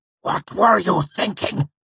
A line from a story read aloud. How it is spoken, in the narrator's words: he hissed